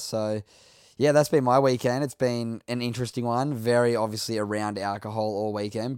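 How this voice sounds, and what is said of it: Slightly scratchy voice. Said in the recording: “as you can hear, my voice is already a little bit scratchy”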